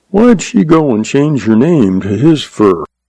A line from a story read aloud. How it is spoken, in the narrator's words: The young man sighed